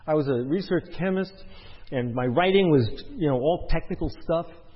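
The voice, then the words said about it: Brooklyn accent. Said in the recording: “kind of like my speech, you know, good Brooklyn accent”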